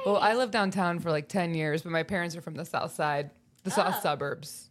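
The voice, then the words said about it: Chicago accent with hard A's. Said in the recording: “I heard your little dialect there a little bit. ... my accent ... It's the hard A's. ... Chicago”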